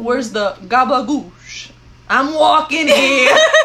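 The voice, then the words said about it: Put-on Italian-American accent. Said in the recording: “an Italian impersonation”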